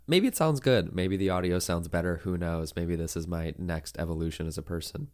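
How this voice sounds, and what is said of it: Strained, congested voice with sniffles. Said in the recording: “My voice is clearly a little bit tanked, and I have the sniffles because I have allergies”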